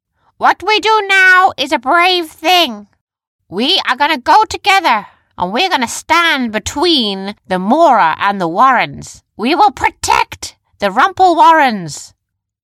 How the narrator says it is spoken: she shouted

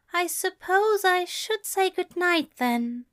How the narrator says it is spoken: Aziraphale said, a bit sadly

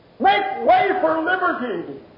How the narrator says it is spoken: screamed

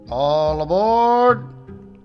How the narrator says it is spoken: the conductor shouted

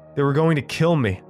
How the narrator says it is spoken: I blurted out

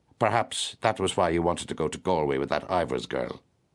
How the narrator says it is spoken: he said coldly

